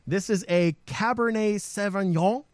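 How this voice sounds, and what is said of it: Bad put-on French accent. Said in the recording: “My French accent is atrocious.”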